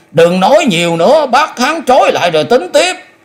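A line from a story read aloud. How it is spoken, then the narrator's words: Loud shout. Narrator (Vietnamese): Phong cũng quát lớn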